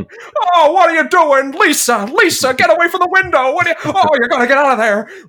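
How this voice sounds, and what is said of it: Jimmy Stewart impression. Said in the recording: “You can't be on this podcast without a Jimmy Stewart impression ... I love his stupid voice”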